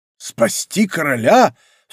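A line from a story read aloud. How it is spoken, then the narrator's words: Startled cry. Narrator (Russian): вскрикнул Д'Артаньян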